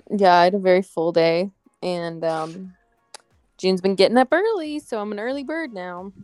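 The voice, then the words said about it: Tired-sounding voice. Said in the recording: “I'm very tired... I can hear it in your voice.”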